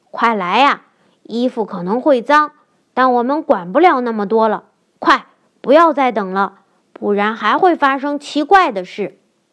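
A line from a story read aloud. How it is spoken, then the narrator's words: Excited shouting. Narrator (Chinese): 他激动地喊着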